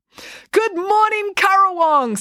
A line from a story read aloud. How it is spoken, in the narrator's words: said happily